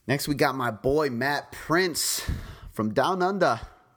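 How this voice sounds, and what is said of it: Poor put-on Australian accent. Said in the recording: “That might have been a horrible Australian accent.”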